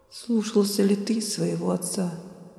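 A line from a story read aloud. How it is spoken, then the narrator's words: Muffled mutter. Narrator (Russian): глухо пробормотал Каин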